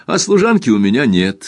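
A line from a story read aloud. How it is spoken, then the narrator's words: Laughing. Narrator (Russian): смеясь добавила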